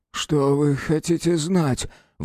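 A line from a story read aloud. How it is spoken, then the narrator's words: Forced out. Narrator (Russian): выдавил он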